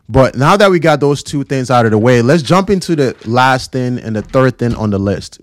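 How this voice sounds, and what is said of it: Slightly raspy voice. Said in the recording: “my voice is a little raspy, that's because it is. And I am a little bit under the weather.”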